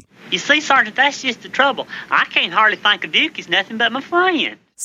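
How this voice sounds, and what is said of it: Gomer Pyle's hick accent. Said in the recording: “Jim Neighbors as the Gomer Pyle character ... Little muddy sound before the E ... that's his quote-unquote hick accent”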